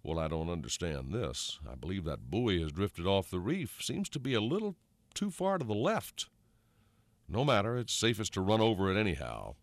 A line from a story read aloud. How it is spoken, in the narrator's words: Thornburg muttered